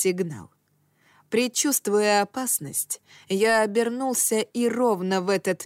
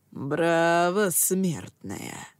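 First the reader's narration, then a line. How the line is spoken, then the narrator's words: Mocking drawl. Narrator (Russian): насмешливо протянул я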